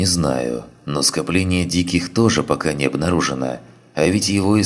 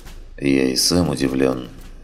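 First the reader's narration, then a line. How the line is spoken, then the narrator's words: Gloomy. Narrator (Russian): мрачно произнес здоровяк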